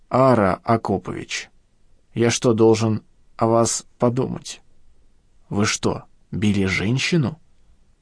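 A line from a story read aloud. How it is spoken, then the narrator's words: Mumbled. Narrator (Russian): плутовато усмехнулся уголком рта и промямлил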